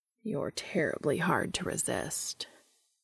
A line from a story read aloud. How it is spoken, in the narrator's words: he says with his voice low